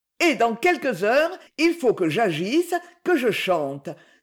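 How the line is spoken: Sudden cry out of dejection. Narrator (French): s'écria-t-elle en sortant tout à coup de son accablement

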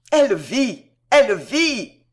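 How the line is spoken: Shouting, wild with joy. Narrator (French): crie-t-il, éperdu de joie

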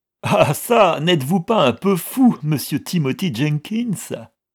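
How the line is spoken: Exclaiming with roaring laughter. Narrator (French): s'écria le comte en riant aux éclats

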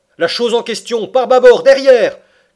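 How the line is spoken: Shouting. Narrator (French): cria le harponneur

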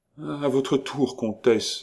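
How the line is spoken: Sick man's trembling voice. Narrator (French): dit le malade, d'une voix qui tremblait

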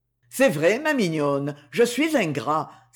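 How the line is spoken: Exclaiming. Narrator (French): s'écria-t-il

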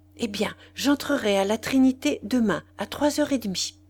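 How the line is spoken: Rapid murmur. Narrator (French): elle murmura très vite

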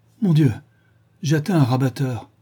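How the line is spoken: Dismayed exclamation. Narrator (French): s'exclama Sir Geoffrey

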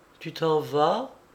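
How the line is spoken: Weak, faint. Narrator (French): dit-il faiblement

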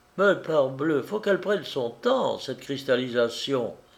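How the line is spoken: Valet's exclamation. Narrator (French): s'écria le valet de chambre

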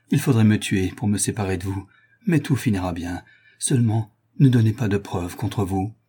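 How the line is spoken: Murmured. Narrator (French): murmura Toinon

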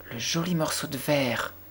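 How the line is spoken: Little girl exclaiming. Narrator (French): s'écria la petite fille

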